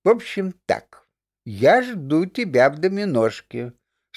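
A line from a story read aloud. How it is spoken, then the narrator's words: Stern remark. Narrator (Russian): строго заметила мама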